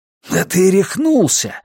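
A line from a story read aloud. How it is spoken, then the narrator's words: Horrified exclamation. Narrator (Russian): в ужасе воскликнул Джордж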